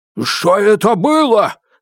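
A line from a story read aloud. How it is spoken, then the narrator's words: Loud yell. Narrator (Russian): заорал острый в моей руке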